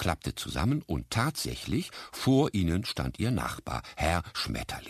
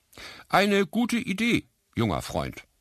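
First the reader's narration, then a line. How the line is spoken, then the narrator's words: Called back. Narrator (German): rief die Stimme zurück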